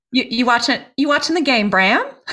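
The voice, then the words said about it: Put-on Australian accent, rising twang. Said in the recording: “Australian accent ... the way that they speak is they go up ... this twang thing ... That was really good. ... this weird cadence of talking”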